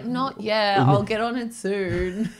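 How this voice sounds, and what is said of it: Bad impression of the co-host. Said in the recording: “Is that your impersonation of me? ... it was pretty bad ... That was trash.”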